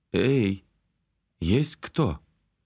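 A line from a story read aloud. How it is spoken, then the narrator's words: Quiet hiss. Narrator (Russian): тихо прошипел я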